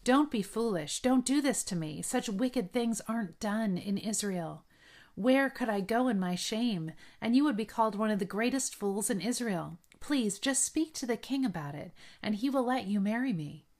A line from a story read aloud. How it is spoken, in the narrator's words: she cried